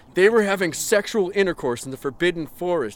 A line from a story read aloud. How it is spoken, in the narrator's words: he yelled in a furious voice